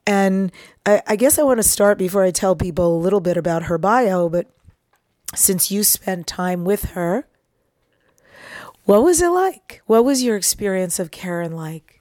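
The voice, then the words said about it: Husky voice. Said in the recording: “the husky voice, the husky sexy voice.”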